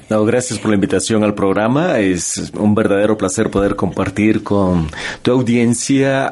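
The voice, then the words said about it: Salvadoran Spanish accent. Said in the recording (Spanish): “¿Te oigo acento? ... Yo nací en El Salvador.”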